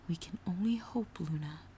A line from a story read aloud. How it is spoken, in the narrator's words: Celestia said quietly